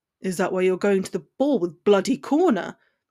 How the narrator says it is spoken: growled, the jealousy rich in his voice

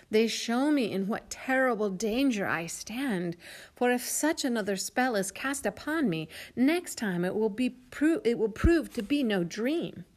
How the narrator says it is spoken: he exclaimed

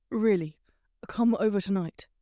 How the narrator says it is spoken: he said, his voice darker now

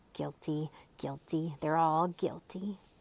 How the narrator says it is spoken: Officer Schrift suspiciously muttering

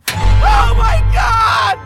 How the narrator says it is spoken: Chris screamed

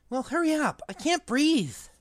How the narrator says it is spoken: gasped, as it curled around his chest

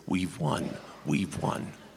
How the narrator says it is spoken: the secular critics sit like two toads on the bank of a muddy pond croaking

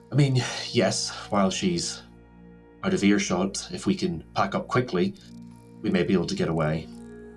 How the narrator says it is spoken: Liana, sort of, you hear her sigh and say

